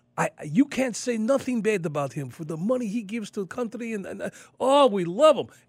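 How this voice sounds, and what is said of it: Put-on accent imitating a woman. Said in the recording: “I can do her accent because this is exactly how she sounds.”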